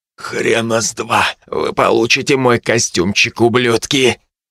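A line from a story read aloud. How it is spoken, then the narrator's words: Hoarse, choking on blood. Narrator (Russian): Давясь кровью, текшей из разбитых губ, я прохрипел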